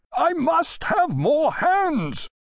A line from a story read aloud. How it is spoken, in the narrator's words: the sailing-master shouted almost into Griffith's ear